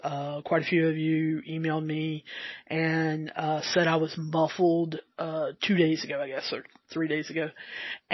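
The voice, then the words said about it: Southern American accent. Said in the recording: “I do have my southern accent, and sometimes it's harder harder to understand.”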